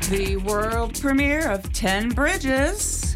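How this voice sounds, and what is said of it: Exaggerated radio announcer voice. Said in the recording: “My radio voice? ... My radio voice.”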